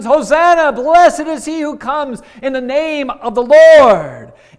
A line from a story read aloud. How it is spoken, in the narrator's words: They're shouting at the top of their lungs